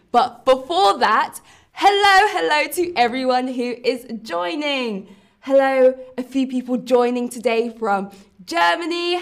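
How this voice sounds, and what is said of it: London accent. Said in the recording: “I am from London, so I have a London accent, which can be very different to accents across the UK”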